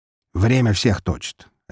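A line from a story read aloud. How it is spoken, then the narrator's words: Sharp. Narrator (Russian): резко произнес Волков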